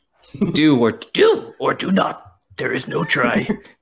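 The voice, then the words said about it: Bad Yoda impression. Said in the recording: “worst Yoda impression ever”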